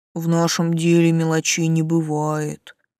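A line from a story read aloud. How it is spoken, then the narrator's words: Stern, then sympathetic sigh. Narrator (Russian): сурово ответил фамильяр и сочувственно вздохнул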